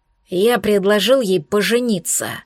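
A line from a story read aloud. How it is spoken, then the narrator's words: Bestial growl. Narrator (Russian): зарычал я, чувствуя, как звериная ипостась рвется наружу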